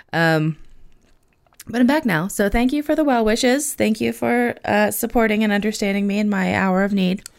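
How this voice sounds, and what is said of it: Sick, hoarse voice, losing voice. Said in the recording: “I am still a little sick, which you can hear in my voice ... my voice is kind of going ... I'm losing my voice”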